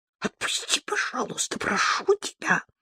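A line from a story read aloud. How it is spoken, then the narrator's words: Whispered. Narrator (Russian): прошептала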